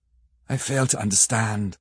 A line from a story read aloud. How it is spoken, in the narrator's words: said Harker, wearily